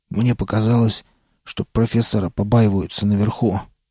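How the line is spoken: Hoarse major. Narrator (Russian): прохрипел майор

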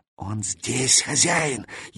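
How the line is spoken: Barely audible whisper. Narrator (Russian): едва слышно шепнул порученец

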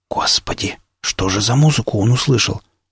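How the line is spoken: Whisper. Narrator (Russian): прошептал Илья Львович

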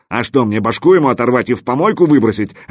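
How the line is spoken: Elephant barking roughly. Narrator (Russian): рявкнул слон

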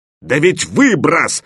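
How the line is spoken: Barked by an elephant. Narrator (Russian): рявкнул слон

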